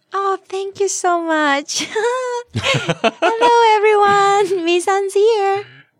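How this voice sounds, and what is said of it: Suddenly sweet, put-on cute voice. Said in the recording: “Why did your voice change all of a sudden? ... Because it's so sweet.”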